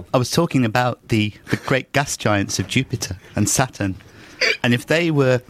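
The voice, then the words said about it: Impression of Brian Cox. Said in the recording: “Brian Cox was ridiculous. That's amazing... It's so unlike your whole timbre, everything about you. It's totally different... your newest impression, Brian Cox”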